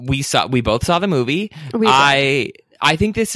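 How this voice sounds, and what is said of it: Usual voice. Nothing is said of it.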